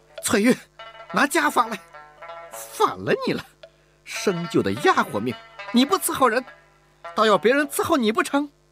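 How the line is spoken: Exasperated shout. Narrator (Chinese): 吴雅氏忍无可忍地喊道

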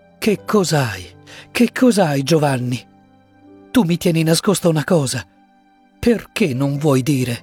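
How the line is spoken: Woman pleading. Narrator (Italian): supplicò lei

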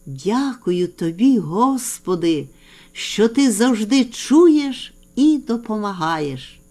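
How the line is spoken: Quiet whisper. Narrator (Ukrainian): тихо прошепотів

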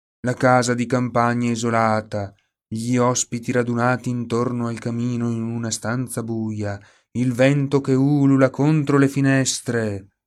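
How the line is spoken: Whining. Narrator (Italian): aggiunse Oliver sempre in tono lamentoso

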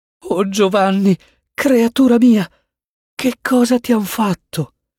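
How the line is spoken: Mother stammering. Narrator (Italian): balbettò la madre

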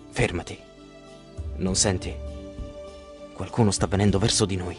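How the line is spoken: Whispered. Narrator (Italian): Ulisse sussurra

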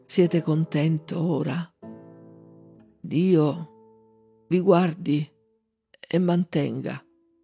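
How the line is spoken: Faint voice in ear. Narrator (Italian): con voce mezza spenta gli disse all'orecchio

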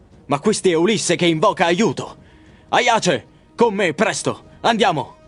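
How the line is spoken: Exclaiming. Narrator (Italian): Menelao, che esclama

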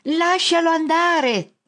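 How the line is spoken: Shouting. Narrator (Italian): grida

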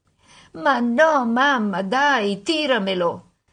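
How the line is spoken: Mock whimpering. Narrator (Italian): Alice fece finta di piagnucolare

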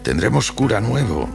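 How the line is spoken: Plain. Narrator (Spanish): le dijo

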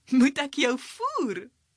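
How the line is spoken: Giggled. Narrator (Afrikaans): giggel Zeldie

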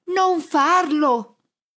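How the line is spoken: Yelled. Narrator (Italian): urlo al tizio

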